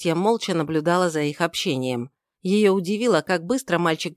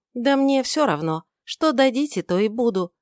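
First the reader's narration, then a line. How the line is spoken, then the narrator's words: Plain. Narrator (Russian): ответила она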